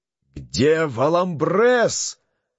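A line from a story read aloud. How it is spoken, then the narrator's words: Thunderous male shout. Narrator (Russian): закричал он громовым голосом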